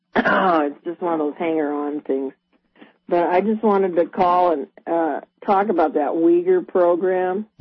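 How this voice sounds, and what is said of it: Congested voice with a cold. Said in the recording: “I've got a bad cold.”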